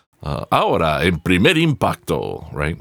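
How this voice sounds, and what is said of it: Latin American Spanish newscaster voice. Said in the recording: “my Spanish newscaster voice, or my Latin American newscaster voice”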